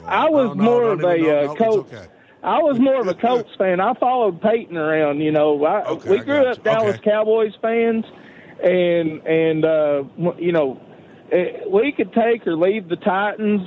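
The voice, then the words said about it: Strong distinctive regional accent. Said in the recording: “I love your accent, by the way. I could literally listen to you all night long ... what an accent that guy's got”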